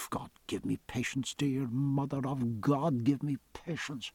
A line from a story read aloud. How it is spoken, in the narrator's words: Stephen muttered within himself